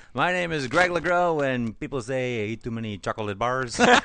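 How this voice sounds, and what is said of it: Put-on French-Canadian accent. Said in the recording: “Is it racist to do a French-Canadian accent? ... I always thought it was French-Canadian.”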